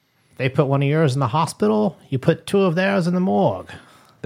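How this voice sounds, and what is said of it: Poor imitation of another person's voice. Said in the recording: “Was that your Irish accent? ... That was my Sean Connery accent. It wasn't very good. ... No, it wasn't.”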